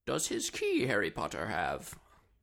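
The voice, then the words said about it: Yoda character voice impression. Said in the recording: “That was my Yoda impression”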